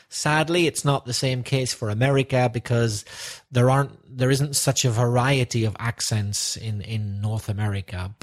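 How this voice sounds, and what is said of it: Northern Irish accent. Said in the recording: “my accent is from Northern Ireland”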